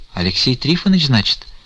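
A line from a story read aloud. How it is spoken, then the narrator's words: Quiet. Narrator (Russian): тихо проговорила Аксинья Захаровна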